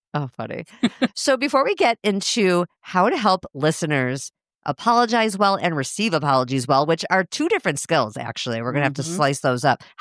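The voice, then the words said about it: Midwestern American accent. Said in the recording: “your Midwestern accent makes me feel right at home ... I don't hear my accent, but people do comment on it.”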